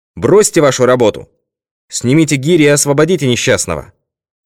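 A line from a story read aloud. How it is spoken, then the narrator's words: Loud, stern, commanding shout. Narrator (Russian): Нат Пинкертон крикнул громким и строгим голосом, не допускавшим никаких возражений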